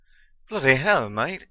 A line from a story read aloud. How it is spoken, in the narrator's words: Ron exclaimed